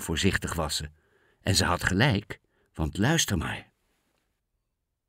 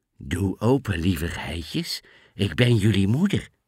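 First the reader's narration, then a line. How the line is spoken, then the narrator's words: Sweet coaxing voice. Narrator (Dutch): zei met zijn liefste stem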